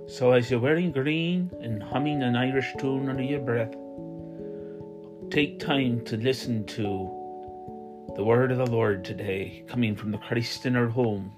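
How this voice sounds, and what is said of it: Put-on funny accent. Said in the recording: “I'm affecting a funny accent right now ... it is also St. Patrick's Day”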